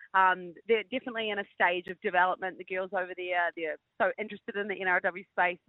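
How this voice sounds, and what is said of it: New Zealand accent. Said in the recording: “we can tell by your accent you are a Gold Coast local, i.e., a, Kiwi.”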